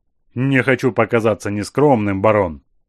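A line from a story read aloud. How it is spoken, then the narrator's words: Icy minister's tone. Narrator (Russian): ледяным тоном ответил английский министр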